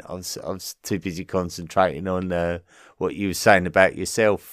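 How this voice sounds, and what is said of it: English Essex accent. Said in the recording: “My accent is from Essex. ... I do tend to compromise it a bit when doing the podcast.”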